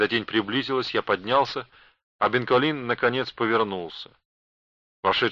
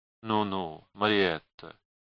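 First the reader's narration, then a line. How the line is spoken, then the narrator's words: Undertone. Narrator (Russian): проговорил он вполголоса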